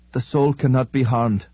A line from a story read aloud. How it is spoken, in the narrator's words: the deacon whimpered